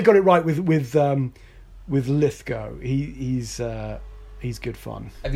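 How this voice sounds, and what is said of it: Usual voice. Nothing is said of it.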